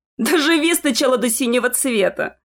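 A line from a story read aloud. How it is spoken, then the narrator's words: Spoken after laughing. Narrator (Russian): Отсмеявшись, сказал парень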